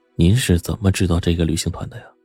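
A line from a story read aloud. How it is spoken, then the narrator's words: Whispered question. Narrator (Chinese): 他悄声的向吴凡问了一句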